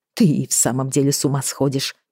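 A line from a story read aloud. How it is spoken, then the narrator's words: Muttering. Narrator (Russian): пробормотала я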